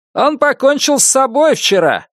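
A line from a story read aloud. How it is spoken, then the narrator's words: Loud answer. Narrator (Russian): громко ответил Энди Ферр, механик из ремонтной мастерской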